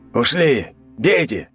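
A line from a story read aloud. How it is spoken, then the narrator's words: Barked. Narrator (Russian): рявкнул Егор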